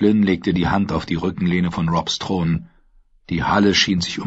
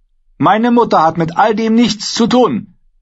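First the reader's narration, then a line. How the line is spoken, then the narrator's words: Angry retort. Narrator (German): entgegnete Rob zornig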